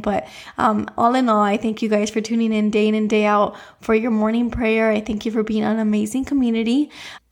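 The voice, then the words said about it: Raspy, slightly hoarse voice. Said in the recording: “I am still a little bit raspy today, so my voice is not fully back to normal”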